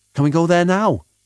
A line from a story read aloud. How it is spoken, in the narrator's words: She asked urgently